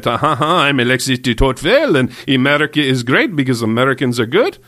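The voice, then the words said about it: Bad put-on French accent. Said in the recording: “the French man might come out ... That was a really bad accent, actually. ... I don't know what accent that was at the end.”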